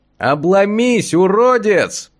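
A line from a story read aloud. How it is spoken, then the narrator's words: Shouting upward. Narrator (Russian): прокричал я, задрав лицо вверх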